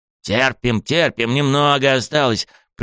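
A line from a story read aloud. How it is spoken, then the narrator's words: Hoarse wheeze. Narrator (Russian): Просипел я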